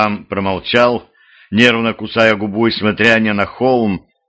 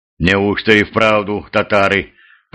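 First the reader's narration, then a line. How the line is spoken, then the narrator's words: Muttered. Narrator (Russian): пробормотал боярин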